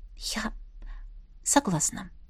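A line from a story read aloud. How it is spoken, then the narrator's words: Whisper. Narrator (Russian): прошептала я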